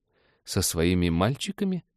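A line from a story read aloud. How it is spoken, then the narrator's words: Thoughtful question. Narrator (Russian): задумчиво уточнил Дэн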